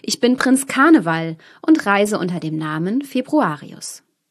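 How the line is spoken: Man calling out. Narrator (German): rief der Mann

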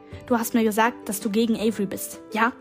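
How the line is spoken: Hissed. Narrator (German): zischte

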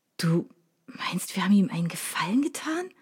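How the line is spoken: Whisper, almost convinced. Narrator (German): flüsterte ich schon fast überzeugt

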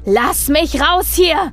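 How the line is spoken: Roaring. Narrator (German): brüllte er

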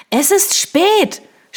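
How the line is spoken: Shouting over music. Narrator (German): schrie Eliza über die Musik hinweg

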